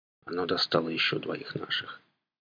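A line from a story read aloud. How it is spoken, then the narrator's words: Barely audible. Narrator (Russian): добавил он чуть слышно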